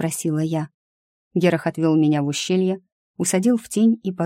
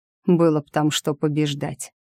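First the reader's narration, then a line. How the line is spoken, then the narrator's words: Contemptuous snort. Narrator (Russian): презрительно фыркнул он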